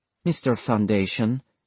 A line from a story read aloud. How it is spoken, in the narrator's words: Isabella murmured